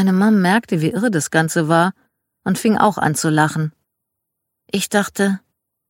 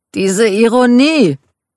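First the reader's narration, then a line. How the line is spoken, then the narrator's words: Exclaiming. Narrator (German): rief Michael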